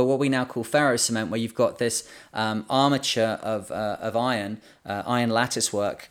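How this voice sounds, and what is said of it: Usual voice. Nothing is said of it.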